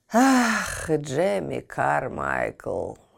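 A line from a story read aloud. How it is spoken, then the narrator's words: Sighing. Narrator (Russian): вздохнул он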